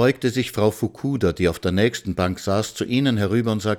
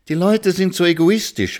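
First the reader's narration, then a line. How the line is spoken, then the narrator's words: Exclaiming. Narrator (German): rief Frau Schimanski aus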